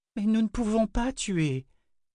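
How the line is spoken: Moaning. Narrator (French): gémit Owen

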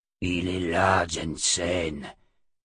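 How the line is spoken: Sudden murmur. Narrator (French): murmura soudain Jagang

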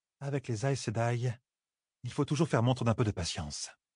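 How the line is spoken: Murmured, as if reciting. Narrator (French): murmura Birgit, comme si elle citait quelque chose

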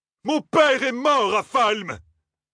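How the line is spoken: Officer shouting in fury. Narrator (French): cria l'officier fou de rage

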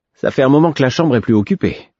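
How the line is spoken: Cheerful remark. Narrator (French): observa-t-il d'un ton enjoué

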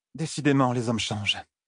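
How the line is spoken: Sighed. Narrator (French): soupira Ninevé

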